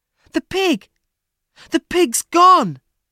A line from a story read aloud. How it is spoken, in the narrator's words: Jack cried